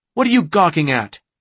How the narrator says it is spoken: She snapped

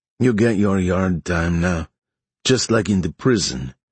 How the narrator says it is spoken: Evan said

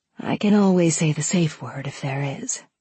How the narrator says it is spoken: said softly

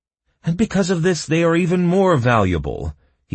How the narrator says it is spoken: he grinned triumphantly

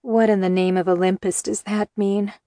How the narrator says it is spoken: I groaned

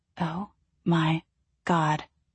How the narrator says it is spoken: I whispered

